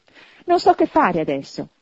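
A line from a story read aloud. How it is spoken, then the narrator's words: Laughing and crying. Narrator (Italian): esclamò ridendo e piangendo insieme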